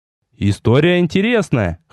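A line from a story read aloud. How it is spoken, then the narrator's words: Snorting. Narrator (Russian): хмыкнул я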